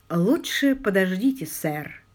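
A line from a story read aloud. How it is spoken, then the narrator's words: Soft but firm, police-like. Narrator (Russian): мягко, но убедительно, очень по-полицейски произнес Алик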